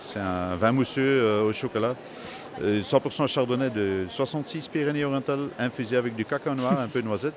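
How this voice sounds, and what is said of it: Slight Dutch-speaking Belgian accent in French. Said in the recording (French): “vous êtes belge ... ma langue maternelle, c'est le, néerlandais, donc j'essaie de me débrouiller en français. Mais il y a un petit accent”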